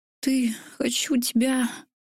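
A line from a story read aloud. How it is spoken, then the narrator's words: Moaned. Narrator (Russian): Простонала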